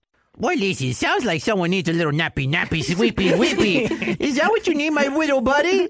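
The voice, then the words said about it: Baby talk voice. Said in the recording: “talking like a baby”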